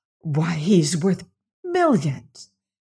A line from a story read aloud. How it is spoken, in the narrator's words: she exclaimed in a whisper